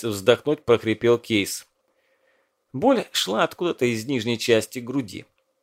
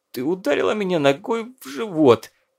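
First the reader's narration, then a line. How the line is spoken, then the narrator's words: Strained, forced out. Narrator (Russian): выдавил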